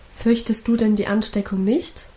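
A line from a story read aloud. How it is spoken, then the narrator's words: Plain question. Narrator (German): fragte mein Mann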